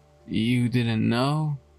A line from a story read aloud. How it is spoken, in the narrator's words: chuckled